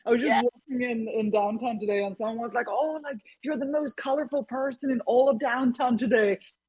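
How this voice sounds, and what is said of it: Swedish accent. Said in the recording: “a beautiful accent, and I feel like it's either Norway or Sweden ... It is Sweden ... it's Swedish”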